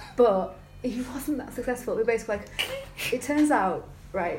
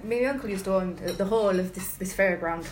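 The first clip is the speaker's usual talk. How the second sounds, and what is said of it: Put-on accent imitating another man. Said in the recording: “I wasn't expecting the accent.”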